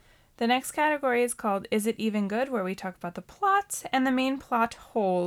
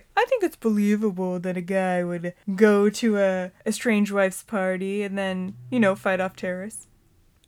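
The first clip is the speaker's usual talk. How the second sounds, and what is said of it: Imitates another person's voice. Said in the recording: “That was my impression of”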